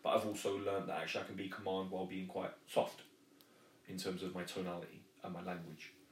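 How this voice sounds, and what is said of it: Southern English accent. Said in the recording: “me being, you know, a southerner. The accent helps”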